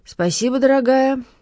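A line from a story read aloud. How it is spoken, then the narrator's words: Mumbling, mouth full. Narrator (Russian): невнятно пробурчал он, жуя печенье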